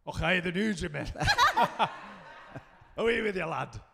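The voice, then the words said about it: Put-on Scottish accent. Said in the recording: “are you able to do a Scottish accent? ... Yeah, I'm really good at it.”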